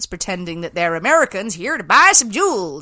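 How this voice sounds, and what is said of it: Put-on American accent, not good. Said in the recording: “Is that your American accent? ... I think that was their bloody American accent, because I can't imagine it was good.”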